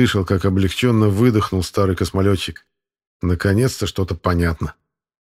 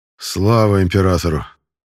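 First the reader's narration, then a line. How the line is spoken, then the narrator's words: Forced out. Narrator (Russian): выдавил капитан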